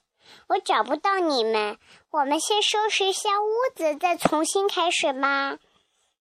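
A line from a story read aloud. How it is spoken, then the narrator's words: Sighing. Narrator (Chinese): 他叹了口气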